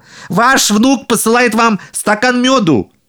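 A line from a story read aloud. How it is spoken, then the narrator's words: Shouting. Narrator (Russian): Еще раз прокричал он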